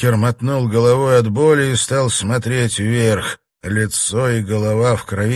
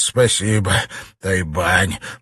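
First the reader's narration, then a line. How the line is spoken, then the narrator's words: Hoarse. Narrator (Russian): прохрипел он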